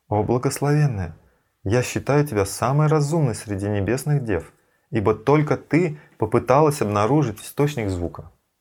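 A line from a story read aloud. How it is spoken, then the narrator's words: Playful sweet voice. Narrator (Russian): Шри Радха шутливо сказала сладким голосом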